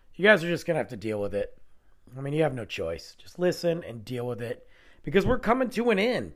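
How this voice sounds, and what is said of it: Stuffy, hoarse voice from illness. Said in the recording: “I am sick or battling some sickness ... I'm stuffy. I'm losing my voice.”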